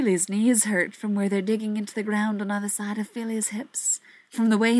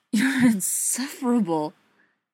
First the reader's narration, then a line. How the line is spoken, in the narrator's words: gasps into his mouth